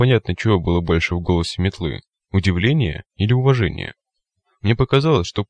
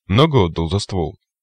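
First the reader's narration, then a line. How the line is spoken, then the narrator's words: Wry grunt. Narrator (Russian): Я хмыкнул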